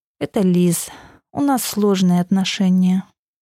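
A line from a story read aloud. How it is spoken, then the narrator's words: Sighing. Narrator (Russian): снова вздохнув, ветер ответил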